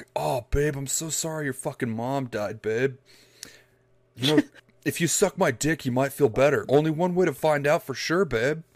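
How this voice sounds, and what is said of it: Mock macho bro character voice. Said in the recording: “putting on my Chad voice”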